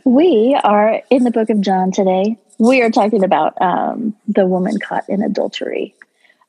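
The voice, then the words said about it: Calm public-radio announcer voice. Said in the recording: “I've got my NPR voice on this morning.”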